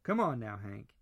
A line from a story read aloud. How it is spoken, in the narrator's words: he said, forcing his tone to be steady and neutral